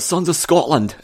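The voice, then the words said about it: Poor put-on Scottish accent. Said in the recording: “my Scottish accent there was worse than Mel Gibson's”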